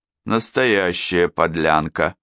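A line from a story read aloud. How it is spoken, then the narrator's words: Groaned. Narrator (Russian): простонал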